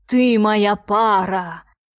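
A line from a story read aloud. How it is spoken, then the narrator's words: Ominous growl. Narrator (Russian): рычал зловеще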